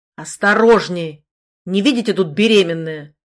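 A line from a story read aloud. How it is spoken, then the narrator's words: Rude bark, stout man. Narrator (Russian): Грубо рявкнул на меня полноватый мужчина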